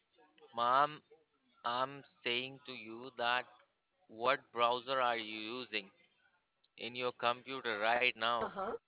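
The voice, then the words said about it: Speaks with a noticeable foreign accent. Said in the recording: “Where's your accent from? ... slow down your accent”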